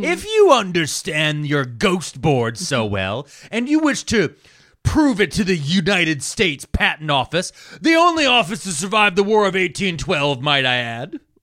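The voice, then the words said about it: Imitates another person's voice. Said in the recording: “the most Conan impersonation I've ever done”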